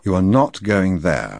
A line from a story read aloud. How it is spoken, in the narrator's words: I said firmly